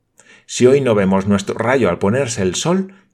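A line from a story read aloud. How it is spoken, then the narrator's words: Plain. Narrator (Spanish): dijo Olivia Sinclair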